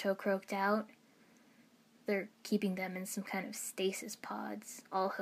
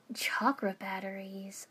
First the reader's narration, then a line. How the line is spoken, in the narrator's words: I breathed